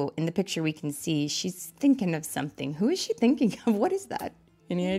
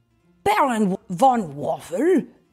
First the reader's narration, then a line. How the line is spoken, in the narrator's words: spat Toast with a scowl